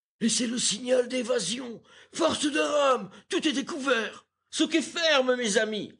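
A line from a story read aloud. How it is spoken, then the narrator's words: Rallying shout. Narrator (French): s'écria James Playfair, excitant ses matelots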